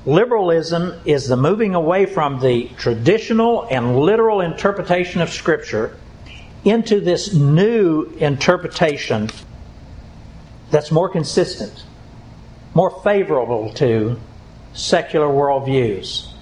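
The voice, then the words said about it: Slow, deliberate speech. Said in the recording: “I'll say it slowly.”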